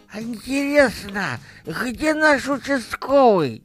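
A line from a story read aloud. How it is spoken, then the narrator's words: Old man's toothless mumble. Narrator (Russian): Прошамкал дед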